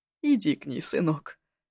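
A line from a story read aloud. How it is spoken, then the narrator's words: Sighing command. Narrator (Russian): Вздохнув, велела она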